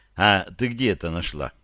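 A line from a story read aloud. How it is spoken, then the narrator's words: Gentle question. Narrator (Russian): я заинтересовался и ласково спросил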